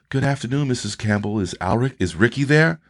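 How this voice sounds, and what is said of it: Polite, formal phone voice. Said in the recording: “you had your best phone voice.”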